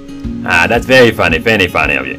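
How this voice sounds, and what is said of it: Mediocre put-on Irish accent. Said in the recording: “your accent? ... we're trying Irish, but it could be better ... I don't know what the accent was”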